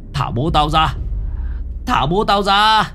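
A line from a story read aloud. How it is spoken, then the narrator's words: Screaming. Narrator (Vietnamese): Ông Lưu gào thét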